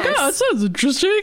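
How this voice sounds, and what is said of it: Imitates another person's voice. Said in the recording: “Your impression of me is really good. I thought I was talking to myself.”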